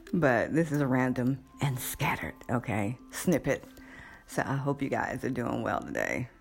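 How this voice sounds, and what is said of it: Rough, congested-sounding voice. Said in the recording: “Excuse my voice. It's allergy season.”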